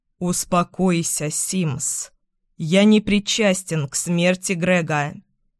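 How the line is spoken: Calm tone. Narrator (Russian): спокойным тоном говорит Эйден

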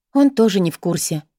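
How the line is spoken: Sigh. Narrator (Russian): вздохнула Бриттани

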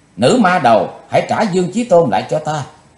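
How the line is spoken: Shouting. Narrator (Vietnamese): hét lên

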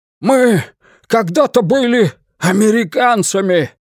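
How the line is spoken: Shouted. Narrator (Russian): наконец крикнул Уитни

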